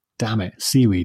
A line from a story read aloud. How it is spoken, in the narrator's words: he muttered